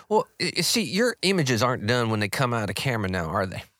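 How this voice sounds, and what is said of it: Put-on accent. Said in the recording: “we're going to stick with this accent, aren't we?”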